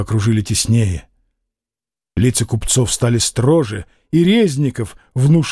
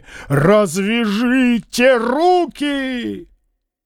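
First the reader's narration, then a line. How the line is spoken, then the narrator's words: Shouting. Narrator (Russian): закричал, свирепо сверкая глазами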